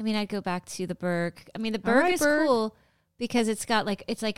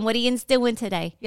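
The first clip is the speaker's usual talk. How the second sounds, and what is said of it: Put-on Pittsburgh accent. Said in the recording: “Pittsburgh ... Accent.”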